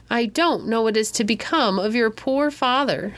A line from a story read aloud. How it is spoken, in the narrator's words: groaned Midas dolefully